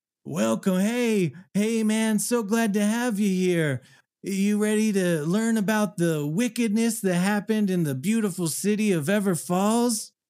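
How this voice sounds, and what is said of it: Laid-back stoner character voice. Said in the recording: “Why do you sound like a stoner? ... you're not wrong, man”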